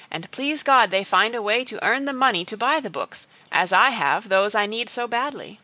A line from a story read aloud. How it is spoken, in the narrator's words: cried Elnora